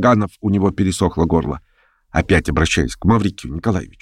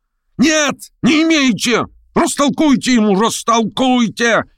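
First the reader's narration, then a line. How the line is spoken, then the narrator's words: Shouting. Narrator (Russian): кричал Гаганов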